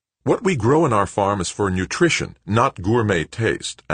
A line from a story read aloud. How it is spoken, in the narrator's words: Anson snapped